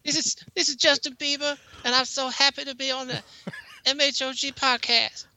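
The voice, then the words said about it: High-pitched imitation of another person's voice. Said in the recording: “I don't know why my voice is so high”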